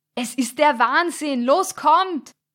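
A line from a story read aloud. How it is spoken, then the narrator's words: Calling from inside. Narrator (German): rief Stefan in diesem Moment von innen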